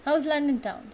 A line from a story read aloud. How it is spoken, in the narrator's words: he asks